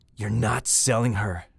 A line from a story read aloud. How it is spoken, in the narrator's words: growl, all evenness leaving me